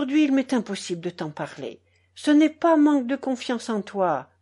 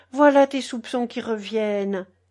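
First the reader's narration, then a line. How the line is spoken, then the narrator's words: Sad smile. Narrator (French): dit Geneviève en souriant tristement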